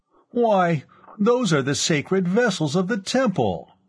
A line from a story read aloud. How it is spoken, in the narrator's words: Tamandrav cried, scandalized